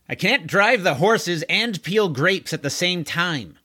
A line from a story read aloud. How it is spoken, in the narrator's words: yelled the square-jawed horseman